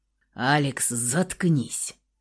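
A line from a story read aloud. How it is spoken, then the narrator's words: Gloomy growl. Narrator (Russian): рыкнул Михаил, враз помрачнев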